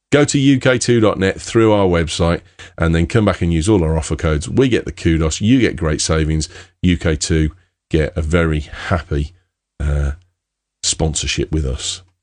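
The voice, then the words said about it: Brummie (Birmingham) English accent. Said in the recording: “a Brummie accent”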